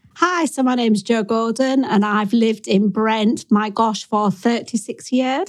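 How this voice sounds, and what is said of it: Strong North Yorkshire accent. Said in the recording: “you gather from my accent, I hope it comes out strong, that I am not born and bred in Brent. I'm from North Yorkshire”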